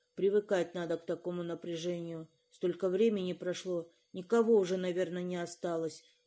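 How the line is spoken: Grumbled reply. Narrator (Russian): буркнула в ответ мама

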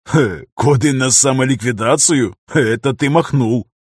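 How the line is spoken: Short laugh. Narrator (Russian): хохотнул Дейран

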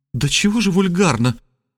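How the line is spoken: Ardent exclamation. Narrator (Russian): пылко воскликнула она

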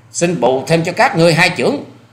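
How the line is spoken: Deep, loud shout. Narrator (Vietnamese): Hoa Sĩ Kiệt thừa thế trầm khí quát to

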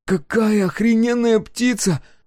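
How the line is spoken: Exclaiming in amazement. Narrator (Russian): воскликнул он, увидев Фиренце

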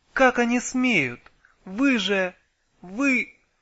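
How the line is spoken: Bursting into sobs. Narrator (Russian): она лихо разрыдалась

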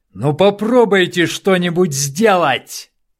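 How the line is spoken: Loud shout for neighbors. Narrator (Russian): закричал Дронго, рассчитывая, что его могут услышать соседи

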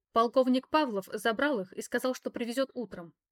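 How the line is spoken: Sharp reply. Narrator (Russian): резко ответила я

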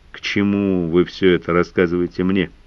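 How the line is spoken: Gloomy question. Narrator (Russian): мрачно спросил старший лейтенант

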